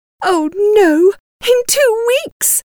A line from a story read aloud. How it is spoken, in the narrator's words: cried Mrs